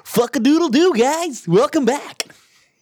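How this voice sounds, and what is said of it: Put-on radio announcer voice. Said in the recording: “Trying to add a radio voice.”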